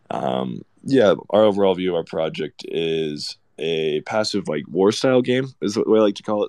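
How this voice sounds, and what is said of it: Deep, gravelly voice after a cold. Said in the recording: “excuse my voice ... getting over a pretty bad cold ... the morning, throat growl ... Deep radio voice.”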